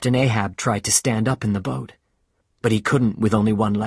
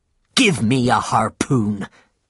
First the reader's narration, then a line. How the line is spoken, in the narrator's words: said angrily